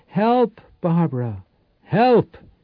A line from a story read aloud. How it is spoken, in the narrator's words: Powell took a deep breath and cried